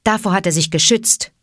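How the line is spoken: Plain. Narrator (German): sagte Graubruder

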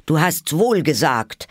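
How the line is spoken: Hatter calling out. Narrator (German): rief der Hutmacher

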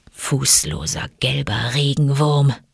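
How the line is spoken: Musing purr into beard. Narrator (German): schnurrte Bagheera in die Borsten seines Bartes, als ob er versuche, sich zu erinnern

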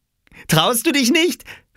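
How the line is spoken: Called out laughing. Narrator (German): rief Oskar und lachte

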